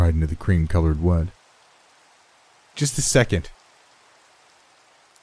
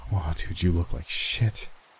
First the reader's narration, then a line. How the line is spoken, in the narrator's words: I muttered ruefully